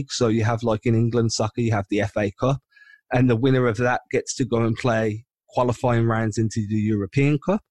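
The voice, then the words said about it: English accent. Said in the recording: “you could tell by my accent, I'm based out in England”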